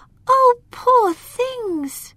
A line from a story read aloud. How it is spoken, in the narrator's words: cried Lila